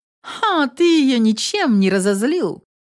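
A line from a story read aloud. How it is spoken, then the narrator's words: Snide question. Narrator (Russian): ехидно спросила Инесс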